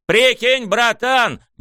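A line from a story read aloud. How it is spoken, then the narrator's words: Shouting. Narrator (Russian): заорал мне Рёдзи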